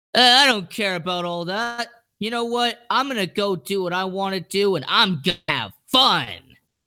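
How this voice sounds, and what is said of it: Deliberately bad imitated voice. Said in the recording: “this is going to be a terrible impression”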